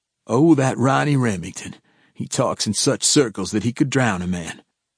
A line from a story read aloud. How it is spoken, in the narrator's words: chuckled, and said